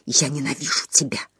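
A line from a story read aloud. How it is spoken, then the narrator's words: Muttering. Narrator (Russian): бормотала она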